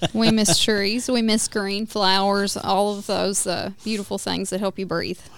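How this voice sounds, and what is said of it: Tennessee Southern accent. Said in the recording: “I love your accent ... based on your accent, where are you from? ... Tennessee. I'm sure you can hear it.”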